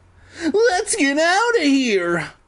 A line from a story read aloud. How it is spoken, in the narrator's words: I shrieked